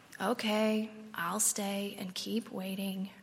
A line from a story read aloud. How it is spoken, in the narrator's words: Gerald groans again, louder this time, and then quietly whispers